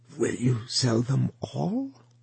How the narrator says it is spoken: she asked in a hoarse whisper

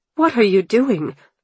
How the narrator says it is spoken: demanded, my voice trembling with anger

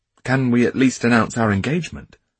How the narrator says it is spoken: Dmitri asked

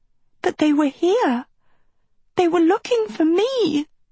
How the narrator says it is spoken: Sophie cried

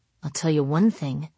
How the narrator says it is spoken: I'd mutter to Jerry Glenn

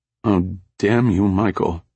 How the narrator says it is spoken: said miserably

